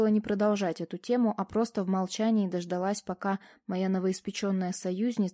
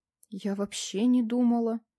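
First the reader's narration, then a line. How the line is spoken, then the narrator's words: Forced out, trembling voice. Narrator (Russian): выдавила Алена дрожащим голосом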